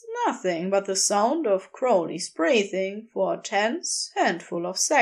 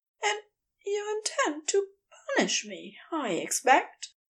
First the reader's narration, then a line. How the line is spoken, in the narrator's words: Aziraphale says quietly